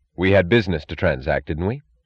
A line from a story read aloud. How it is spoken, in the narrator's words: said Reardon